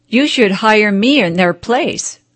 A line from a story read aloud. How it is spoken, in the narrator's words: laughed the master